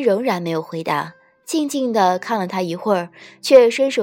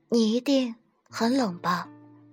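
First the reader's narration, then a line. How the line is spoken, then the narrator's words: Soft. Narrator (Chinese): 轻声道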